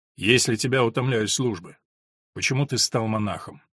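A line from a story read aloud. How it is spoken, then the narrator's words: Calm. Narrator (Russian): спокойно спросил Филипп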